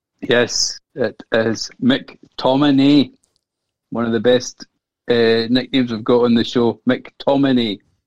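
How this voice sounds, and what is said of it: Put-on Scottish accent. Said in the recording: “introduce him with a proper Scottish accent”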